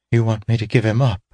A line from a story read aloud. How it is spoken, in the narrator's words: she breathed